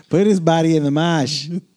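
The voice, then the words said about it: Put-on Boston accent. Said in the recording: “With his Boston accent?”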